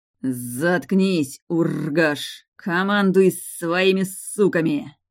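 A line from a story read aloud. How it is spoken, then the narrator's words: Snakelike hiss through teeth. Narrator (Russian): сквозь зубы по-змеиному прошипел мой любимый демон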